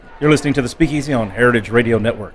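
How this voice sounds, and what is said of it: Radio announcer voice with pitch dip. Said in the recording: “What do I say in my radio voice? ... See, there you go, the dip.”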